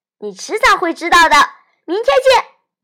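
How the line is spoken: Grinning giggle. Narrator (Chinese): 尼克咧着嘴嘻嘻笑

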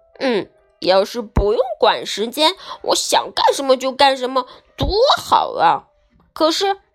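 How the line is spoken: King muttering to himself. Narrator (Chinese): 国王自己嘀咕说

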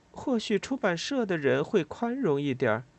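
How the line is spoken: Quiet. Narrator (Chinese): 我小声说

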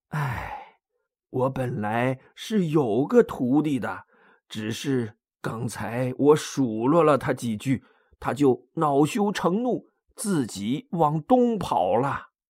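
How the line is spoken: Dejected sigh. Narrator (Chinese): 唐僧沮丧的叹口气说

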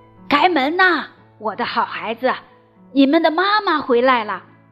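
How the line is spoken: Loud call. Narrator (Chinese): 有人大声说

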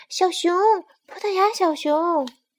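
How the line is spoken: Shout. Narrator (Chinese): 麻雀喊道

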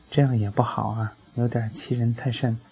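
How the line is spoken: Long sigh. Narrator (Chinese): 火锅大将军长叹

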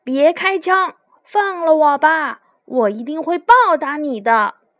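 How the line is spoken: Crow calling out. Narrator (Chinese): 乌鸦叫道

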